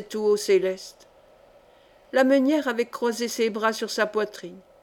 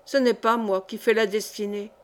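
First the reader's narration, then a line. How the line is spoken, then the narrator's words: Curt, dry. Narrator (French): prononça-t-elle sèchement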